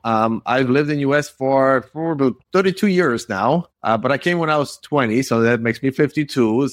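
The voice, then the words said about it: Polish accent. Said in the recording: “I'm sure you hear my accent. I'm originally from Poland, from Warsaw ... I can't get rid of my accent”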